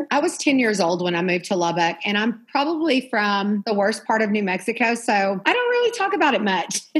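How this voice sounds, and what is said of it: Noticeable regional accent. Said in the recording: “You have an accent.”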